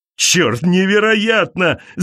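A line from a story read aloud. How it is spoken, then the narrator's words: Shout. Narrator (Russian): закричал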